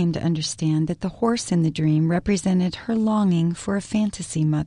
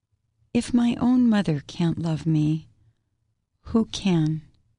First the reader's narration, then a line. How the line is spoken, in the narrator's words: Gail said to me sadly